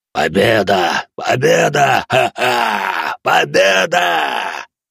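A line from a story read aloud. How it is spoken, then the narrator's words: Growling. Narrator (Russian): зарычал Тай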